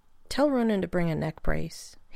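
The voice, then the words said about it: Small, quiet voice. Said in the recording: “in a small voice.”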